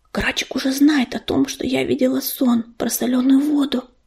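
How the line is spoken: Whisper in ear. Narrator (Russian): шепнула на ухо ежевике ласточка

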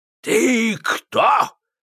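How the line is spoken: Menacing voice. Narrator (Russian): спросил он грозным голосом

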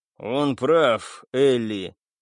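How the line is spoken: Gloomy. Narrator (Russian): мрачно выдал Солянка

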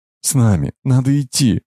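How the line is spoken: Tearful babbling, foreign woman. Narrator (Russian): вдруг заплакав, залепетала немка

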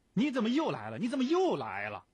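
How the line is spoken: Sudden roar. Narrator (Chinese): 忽然像惊醒了狮子似的吼道

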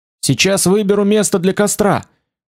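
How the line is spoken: Feverishly excited shout. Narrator (Russian): крикнул Фицрой в лихорадочном возбуждении

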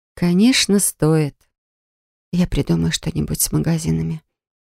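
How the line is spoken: Whisper. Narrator (Russian): прошептала я

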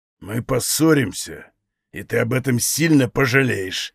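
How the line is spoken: Angry reply. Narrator (Russian): ответил Даг зло

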